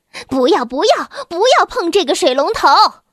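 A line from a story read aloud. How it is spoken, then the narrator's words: Urgent shout. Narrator (Chinese): 马莫特太太急忙冲过去，大喊着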